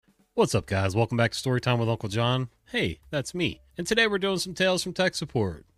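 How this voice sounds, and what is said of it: Congested, stuffy-nosed voice. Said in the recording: “I don't know if you can still tell from my voice that I'm all plugged up”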